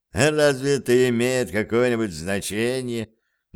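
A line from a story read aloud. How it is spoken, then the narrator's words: Mocking question. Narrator (Russian): насмешливо спросил граф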